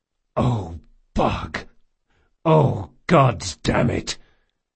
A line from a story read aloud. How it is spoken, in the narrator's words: The big man groaned